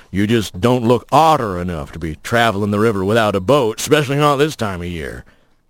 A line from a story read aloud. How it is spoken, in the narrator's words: that voice rumbling